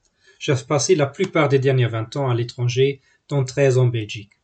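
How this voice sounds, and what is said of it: German accent speaking French. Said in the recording (French): “mon petit joli accent, je suis allemand d'origine”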